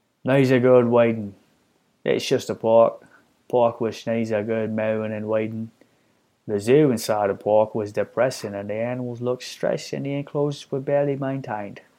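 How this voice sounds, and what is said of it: Attempted Australian accent. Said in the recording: “Shall I read that in an Australian accent? ... Whatever that accent was, that's the best I'm going to do.”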